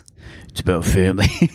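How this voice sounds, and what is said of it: Imitates another person's voice. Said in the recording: “doing a Vin Diesel voice”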